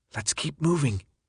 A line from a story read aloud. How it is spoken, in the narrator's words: Brenda whispered from behind